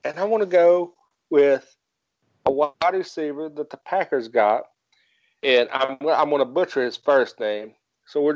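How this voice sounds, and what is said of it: Southern American accent. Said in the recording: “I'm from West Virginia. I have a Southern accent.”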